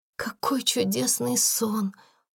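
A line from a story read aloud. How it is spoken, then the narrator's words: Whisper. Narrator (Russian): прошептала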